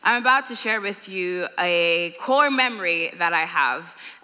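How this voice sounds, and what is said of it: Mixed Nigerian, London and Irish accent. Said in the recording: “my accent is the way that it is because I'm Nigerian, born in London and raised in Ireland”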